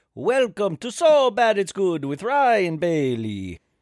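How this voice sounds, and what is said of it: Put-on Italian accent. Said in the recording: “I'm speaking in an Italian accent like Lady Gaga”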